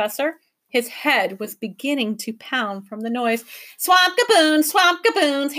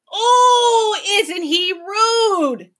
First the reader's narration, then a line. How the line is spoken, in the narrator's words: He screamed